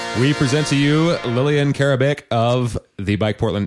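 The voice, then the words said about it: Announcer voice. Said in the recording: “You were doing such a good job with the announcer voice.”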